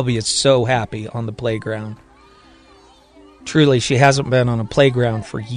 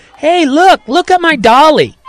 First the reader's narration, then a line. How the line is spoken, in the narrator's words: Johnny Shelby takes the smallest sip and runs back to the other kids on the playground, yelling